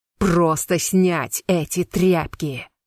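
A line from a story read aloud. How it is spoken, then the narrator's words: Lord growling. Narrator (Russian): рычал лорд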